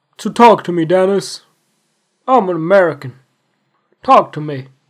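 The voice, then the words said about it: Imitates another person's voice. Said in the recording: “I can't do a Dr. Phil accent.”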